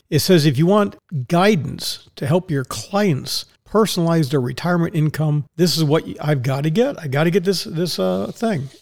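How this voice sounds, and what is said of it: Sarcastic tone. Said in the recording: “And I'm just laughing. Obviously, you can tell I'm being sarcastic.”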